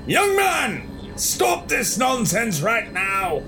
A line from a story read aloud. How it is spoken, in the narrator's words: the other doctor shouted